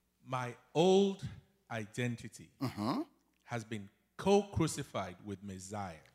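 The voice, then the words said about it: Slow, deliberate preacher-style reading. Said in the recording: “Please say it slowly for me. Give me a Baptist voice”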